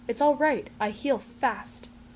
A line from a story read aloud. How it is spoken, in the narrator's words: Ray hisses